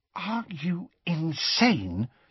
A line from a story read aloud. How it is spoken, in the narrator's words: said Hermione in a hushed voice